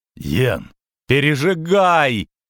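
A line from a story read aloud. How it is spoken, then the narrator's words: Wailing, female. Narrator (Russian): взвыла она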